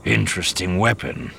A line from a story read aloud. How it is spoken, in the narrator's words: the major murmured